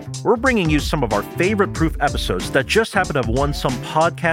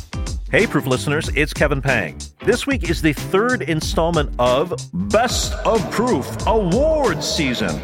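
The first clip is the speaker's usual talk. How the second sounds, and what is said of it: Exaggerated announcer voice. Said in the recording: “you like that announcer voice?”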